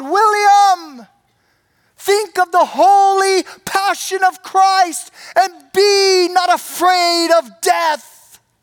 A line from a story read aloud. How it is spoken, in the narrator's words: his brother shouted out from the crowd